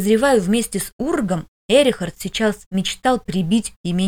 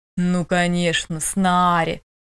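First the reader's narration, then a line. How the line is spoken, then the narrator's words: Unkind drawl. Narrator (Russian): недобро протянул Эрихард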